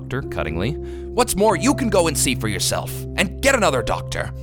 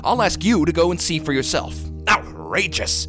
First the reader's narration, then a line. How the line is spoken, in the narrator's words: He snapped the last word out in almost one syllable